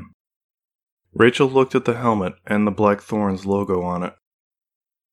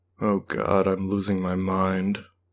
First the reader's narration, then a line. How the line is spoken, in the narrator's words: she mumbled